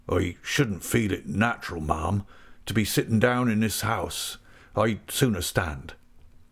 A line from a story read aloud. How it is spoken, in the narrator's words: He said in a low voice